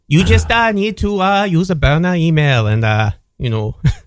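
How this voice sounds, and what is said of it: Put-on accent, unclear which. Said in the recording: “Which accent were you trying to do? I can guess what you're doing”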